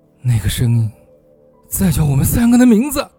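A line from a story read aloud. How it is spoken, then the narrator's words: Slightly trembling voice. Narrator (Chinese): 金哥声音略带颤抖的说道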